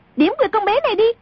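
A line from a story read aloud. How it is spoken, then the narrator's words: Sudden shout. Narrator (Vietnamese): A Tử bỗng quát lên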